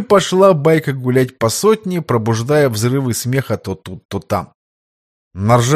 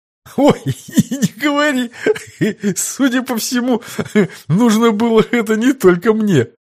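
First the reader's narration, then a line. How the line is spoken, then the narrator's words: Barely audible wheeze. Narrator (Russian): едва просипел подлекарь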